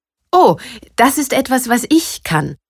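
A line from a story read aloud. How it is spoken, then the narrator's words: Proud laughing speech. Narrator (German): sagte und lachte stolz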